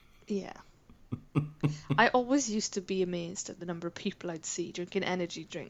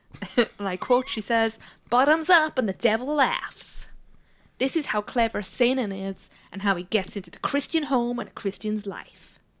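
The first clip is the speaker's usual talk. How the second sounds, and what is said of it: Put-on accent. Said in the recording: “Did you enjoy my accent? ... I enjoyed your accent.”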